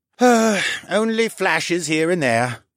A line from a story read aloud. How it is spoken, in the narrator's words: the brain sighed